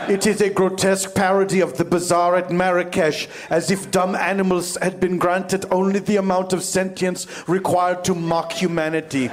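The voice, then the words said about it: Put-on accent, not very convincing. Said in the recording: “the accent could be better”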